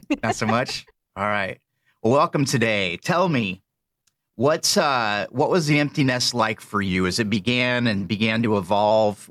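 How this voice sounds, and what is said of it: Speaks with a noticeable accent. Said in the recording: “accent laden husband”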